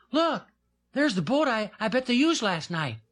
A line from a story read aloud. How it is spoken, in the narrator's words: Little Jim cried suddenly